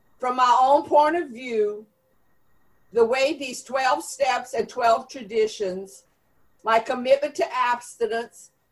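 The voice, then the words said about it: Cajun South Louisiana drawl. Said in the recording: “in my own Cajun accent, with this South Louisiana drawl,”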